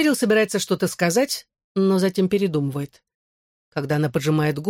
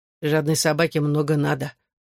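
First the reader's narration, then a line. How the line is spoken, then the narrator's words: Muttering to himself. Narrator (Russian): бормочет себе под нос мистер Престон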